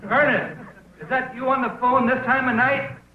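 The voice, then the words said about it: Yelling. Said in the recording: “He's yelling right now”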